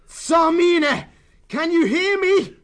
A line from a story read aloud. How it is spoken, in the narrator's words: Martin roared out above the voice of the howling blade